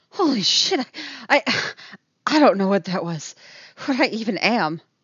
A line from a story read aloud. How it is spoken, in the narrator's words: she pants